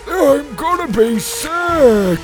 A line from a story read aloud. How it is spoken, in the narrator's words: moaned Petey